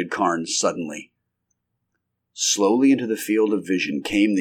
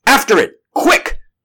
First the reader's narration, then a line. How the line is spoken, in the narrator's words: cried the doctor